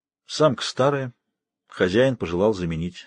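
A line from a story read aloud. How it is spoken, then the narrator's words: Calm explanation. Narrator (Russian): спокойно пояснила та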